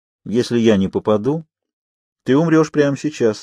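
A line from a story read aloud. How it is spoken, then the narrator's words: Calm remark. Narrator (Russian): спокойно заметил Казанова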